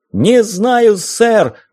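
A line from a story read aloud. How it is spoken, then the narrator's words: Yelling. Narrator (Russian): заорал я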